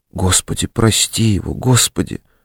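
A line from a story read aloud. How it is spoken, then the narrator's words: Whisper. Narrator (Russian): шептала Зинаида Лукинишна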